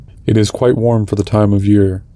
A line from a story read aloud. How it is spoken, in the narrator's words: said Frampton